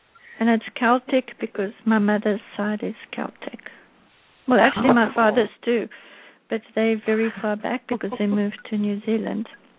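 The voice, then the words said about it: Interesting foreign accent. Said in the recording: “you've got the most interesting accent”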